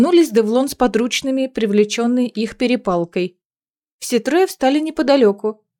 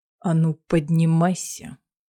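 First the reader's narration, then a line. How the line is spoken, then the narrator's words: Quiet growl. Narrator (Russian): тихо прорычал Кассиан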